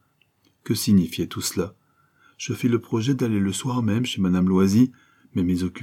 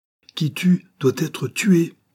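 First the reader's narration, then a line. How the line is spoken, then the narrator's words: Cried out. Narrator (French): s'écria-t-elle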